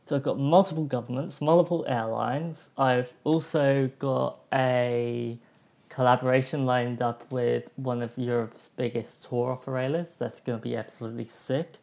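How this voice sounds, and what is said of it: Slightly off, dry-throated voice. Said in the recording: “I've got a little bit of a dry throat, so my voice sounds a little bit off.”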